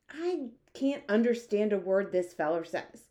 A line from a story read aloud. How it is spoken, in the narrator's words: the head of the army snapped